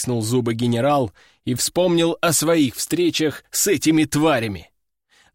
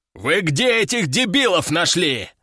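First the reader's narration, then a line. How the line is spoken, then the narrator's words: Roaring. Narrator (Russian): взревел генерал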